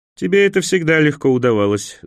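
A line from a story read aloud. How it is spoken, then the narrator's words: Laughing. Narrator (Russian): засмеялся эфиоп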